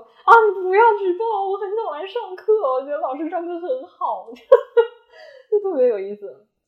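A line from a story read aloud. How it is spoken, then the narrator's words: Child, tearful. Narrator (Chinese): 孩子在哭，说就又带着哭腔说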